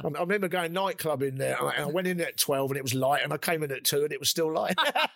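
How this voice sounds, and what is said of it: Cockney accent. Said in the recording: “I was the only Cockney up there as well... I never heard another Cockney accent.”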